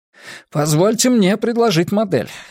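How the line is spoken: Excited. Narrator (Russian): взволнованно заговорил Гуань

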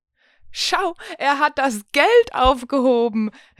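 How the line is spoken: Laughing call. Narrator (German): rief sie lachend

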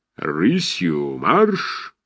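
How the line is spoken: Thunderous command. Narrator (Russian): скомандовал громовым голосом Осадчий

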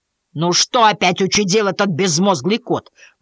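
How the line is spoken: Grumbling. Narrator (Russian): проворчал Мэдисон

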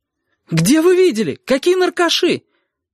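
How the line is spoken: Shouted. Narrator (Russian): выкрикнула Сашка

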